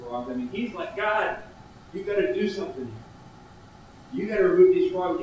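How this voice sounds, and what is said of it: Raised, louder voice. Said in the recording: “I'm raising my voice”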